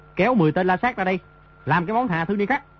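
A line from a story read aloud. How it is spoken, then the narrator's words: Shouting. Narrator (Vietnamese): Di Tiểu Bảo quát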